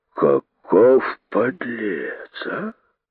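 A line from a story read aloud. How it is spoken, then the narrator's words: Hissing. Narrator (Russian): шипели другие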